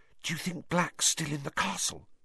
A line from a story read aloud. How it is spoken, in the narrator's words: Hermione whispered anxiously